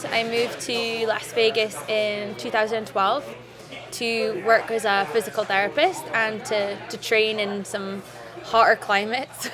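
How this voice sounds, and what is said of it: Scottish accent. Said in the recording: “you'll soon find out from her accent she's not originally from here ... I'm from Scotland”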